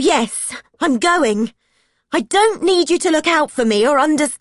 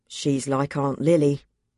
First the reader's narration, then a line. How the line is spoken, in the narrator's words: Dad said quietly